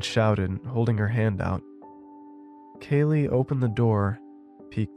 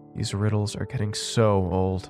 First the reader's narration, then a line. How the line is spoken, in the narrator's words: Kaylee groaned